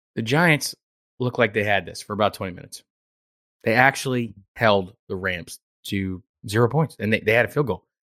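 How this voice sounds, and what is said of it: Hoarse, strained voice. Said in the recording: “I got a little frog in my throat because I pretty much lost my voice”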